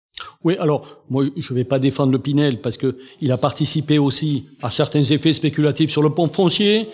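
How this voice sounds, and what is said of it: Noticeable regional French accent. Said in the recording (French): “On entend l'accent”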